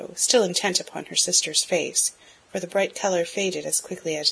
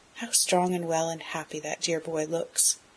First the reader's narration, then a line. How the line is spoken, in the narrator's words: said softly, as if to herself